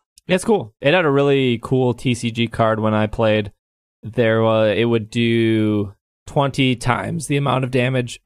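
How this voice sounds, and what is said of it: Hoarse, strained voice. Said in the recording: “Sorry, I'm like losing my voice.”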